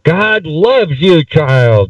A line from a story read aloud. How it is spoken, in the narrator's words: they shouted